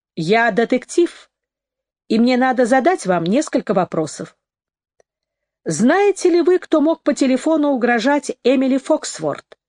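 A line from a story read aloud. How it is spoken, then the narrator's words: Rude snort. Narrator (Russian): Стайн грубо фыркнул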